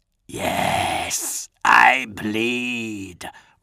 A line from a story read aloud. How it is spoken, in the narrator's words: rasped a death-rattle voice